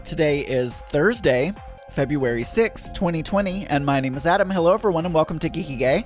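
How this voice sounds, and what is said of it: Lower, crunchy, hoarse voice. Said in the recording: “My voice is a little bit lower and a little bit crunchier today than even normal... hoarse-sounding... I have a little bit of a cold”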